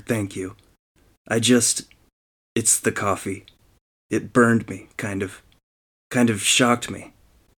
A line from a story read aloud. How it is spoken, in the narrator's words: stammered